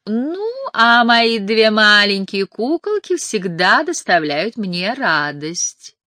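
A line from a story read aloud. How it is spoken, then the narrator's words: Singsong. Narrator (Russian): добавила нараспев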